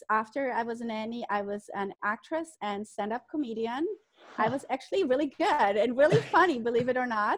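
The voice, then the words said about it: German accent. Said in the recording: “as you can hear from my accent, I'm not American. I came from Germany”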